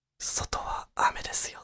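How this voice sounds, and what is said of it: Whispered line. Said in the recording (Japanese): “囁いてくれる”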